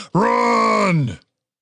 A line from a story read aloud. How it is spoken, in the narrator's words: shouted at Tim